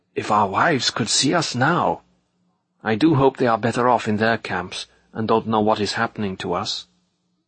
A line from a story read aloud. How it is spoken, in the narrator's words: Hiding his mouth behind his upturned collar, the man marching next to me whispered suddenly